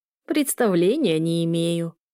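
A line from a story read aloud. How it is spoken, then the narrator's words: Creaky old woman's laugh. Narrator (Russian): скрипуче рассмеялась старушка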